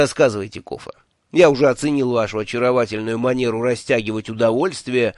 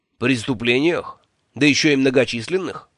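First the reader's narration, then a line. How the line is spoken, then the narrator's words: Skeptical snort. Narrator (Russian): недоверчиво хмыкнул Джуфин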